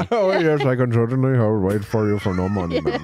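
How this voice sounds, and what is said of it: Impression of a cab driver. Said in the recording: “can you do a quick impression of what you think Shankar sounded like waiting for Jamie?”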